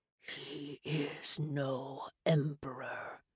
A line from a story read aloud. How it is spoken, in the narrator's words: Moloch snarled